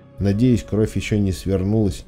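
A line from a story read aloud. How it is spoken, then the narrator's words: Muttered, female. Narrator (Russian): пробормотала она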